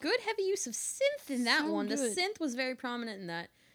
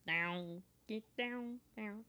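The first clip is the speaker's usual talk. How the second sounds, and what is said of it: Synth-like alien voice. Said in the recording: “my synth impression. Don't I sound kind of like an alien?”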